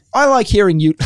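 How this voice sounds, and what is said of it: Put-on English accent. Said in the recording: “Was that you doing an English accent?”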